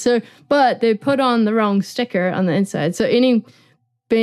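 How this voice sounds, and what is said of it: Usual voice. Nothing is said of it.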